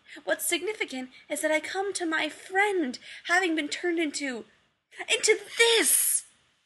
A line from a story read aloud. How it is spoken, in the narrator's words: he screamed, high-pitched